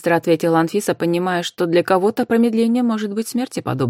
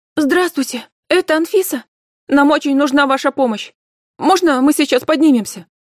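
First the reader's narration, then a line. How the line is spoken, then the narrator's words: Hurried shout, over phone. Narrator (Russian): Торопливо кричал в трубку голос неизвестный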